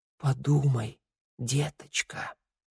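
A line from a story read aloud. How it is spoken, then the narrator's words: Whisper. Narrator (Russian): прошептала мать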